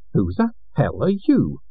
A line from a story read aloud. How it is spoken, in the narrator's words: exclaimed Kin